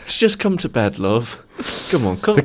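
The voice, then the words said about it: Put-on Woking accent. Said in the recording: “The classic Woking accent there.”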